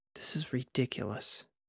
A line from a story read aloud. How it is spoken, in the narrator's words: mumbled